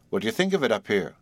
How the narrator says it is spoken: demanded Harry eagerly

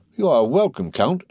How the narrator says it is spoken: she exclaimed

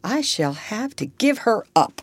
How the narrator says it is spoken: said Miss Ophelia

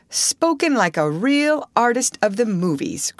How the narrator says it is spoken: cried Mr

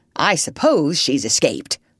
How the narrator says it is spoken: grumbled the crocodile

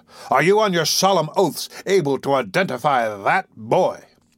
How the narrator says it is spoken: thundered the doctor

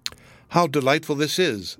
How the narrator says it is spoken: said, and she sighed for very pleasure

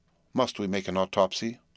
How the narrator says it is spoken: I asked

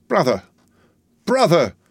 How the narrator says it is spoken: cried Miss Pross, bursting into tears

